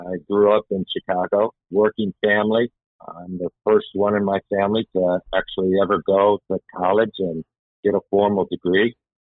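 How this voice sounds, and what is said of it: Chicago accent. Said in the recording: “my accent is a Chicago accent”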